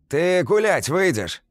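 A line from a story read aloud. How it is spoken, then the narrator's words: Loud shouting. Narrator (Russian): По инерции также громко кричит прямо на меня Стаська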